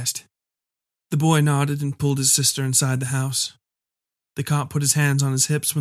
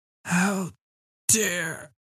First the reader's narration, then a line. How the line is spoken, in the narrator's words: I slurred